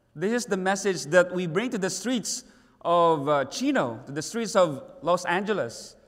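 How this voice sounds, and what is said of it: Strange-sounding foreign accent. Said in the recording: “how strange my accent is”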